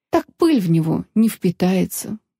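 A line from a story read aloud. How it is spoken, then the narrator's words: Sigh. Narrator (Russian): вздохнул маг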